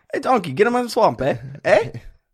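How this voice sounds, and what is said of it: Mixed Scottish-Canadian cartoon ogre voice. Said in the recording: “Give me your best Canadian Shrek ... That seems a little more tight. That's like a Scottish Canadian.”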